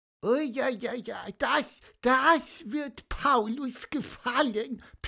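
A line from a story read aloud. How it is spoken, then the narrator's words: Squeaky. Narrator (German): piepste Pieper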